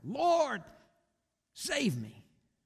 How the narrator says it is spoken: he cried out

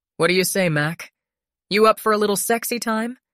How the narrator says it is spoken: She laughed

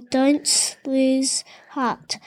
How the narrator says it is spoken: said Grandma Poss

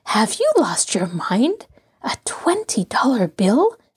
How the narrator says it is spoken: she whispered

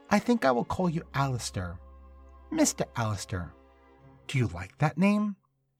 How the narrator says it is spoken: said in a melodic voice

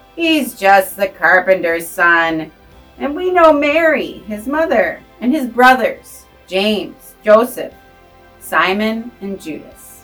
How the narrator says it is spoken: they scoffed

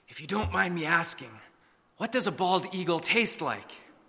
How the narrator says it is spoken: the judge leaned over and whispered

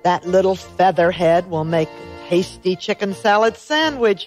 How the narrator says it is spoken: he chuckled

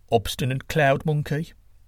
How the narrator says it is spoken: said Quetzalcoatl, adding under his breath

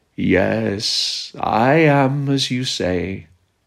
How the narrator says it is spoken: sleepily answered

